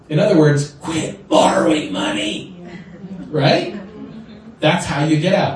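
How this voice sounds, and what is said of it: Imitates another person's voice. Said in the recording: “my best Dave Ramsey imitation”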